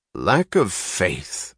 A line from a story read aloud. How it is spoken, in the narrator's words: a beefy speaker was snarling in the tone of a street brawl